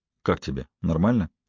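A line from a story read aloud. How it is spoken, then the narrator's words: Quiet question. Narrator (Russian): Я тихонько спросил Холли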